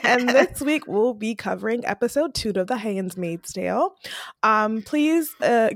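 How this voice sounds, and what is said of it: Hoarse, much deeper voice. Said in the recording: “the sultry voice for this uh, week... excuse my voice... my voice is gone... the smooth sound of ... right now because my voice has gone down a couple octaves”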